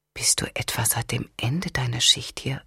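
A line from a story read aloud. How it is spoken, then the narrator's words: Whispered question. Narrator (German): fragte Lyle im Flüsterton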